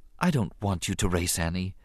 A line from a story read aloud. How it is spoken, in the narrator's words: his mother said quietly